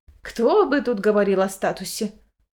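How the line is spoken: Snorted. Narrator (Russian): Фыркнула графиня Гартена Алейра

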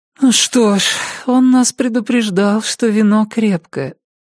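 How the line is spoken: Sleepy mumble. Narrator (Russian): сонно пробормотала дверь

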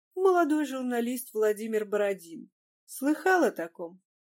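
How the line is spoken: Laughing. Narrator (Russian): Козлов снова засмеялся

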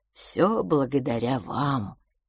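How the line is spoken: Quiet. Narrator (Russian): тихо произнес он

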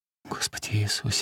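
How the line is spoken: Rapid whisper. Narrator (Russian): скороговоркой шептала она

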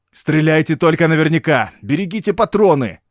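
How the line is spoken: Barked, desperate. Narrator (Russian): гаркнул француз, уже понимая, что эту позицию не удержать

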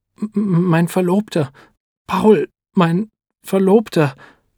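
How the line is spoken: Stammering. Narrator (German): stottert Edeltraud Huber

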